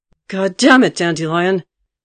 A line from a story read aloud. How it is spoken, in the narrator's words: Geralt roared in absolute fury, interrupting the song